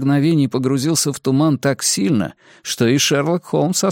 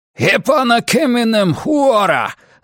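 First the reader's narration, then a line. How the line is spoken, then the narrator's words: Scout shouting. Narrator (Russian): закричал разведчик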